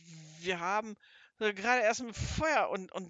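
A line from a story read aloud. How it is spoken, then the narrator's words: Stammering. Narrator (German): so stammelte Seppel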